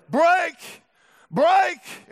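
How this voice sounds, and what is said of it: Yelling. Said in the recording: “I'm yelling,”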